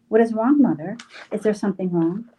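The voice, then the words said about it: Panicked, alarmed voice. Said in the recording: “I blurted out in a panicked voice”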